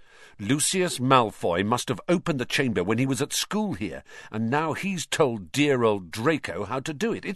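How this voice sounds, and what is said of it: Triumphant voice. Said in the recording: “in a triumphant voice”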